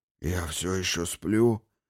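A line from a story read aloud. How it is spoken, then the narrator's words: Hoarse sad question. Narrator (Russian): спросил хриплым и печальным голосом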